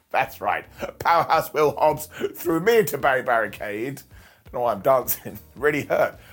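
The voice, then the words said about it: Croaky voice. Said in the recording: “my voice is so croaky”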